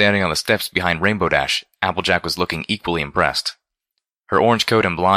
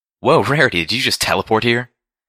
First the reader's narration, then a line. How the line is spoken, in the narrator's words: Rainbow Dash exclaimed loudly